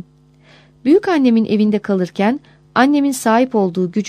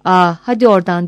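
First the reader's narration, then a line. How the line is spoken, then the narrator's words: Shouted. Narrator (Turkish): diye bağırırdı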